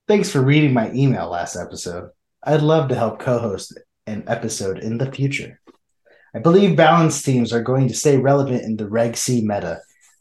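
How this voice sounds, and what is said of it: Made-up character voice reading email. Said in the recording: “my best Glitch impression ... We don't know what Glitch sounds like ... whatever ... says is his own imagination”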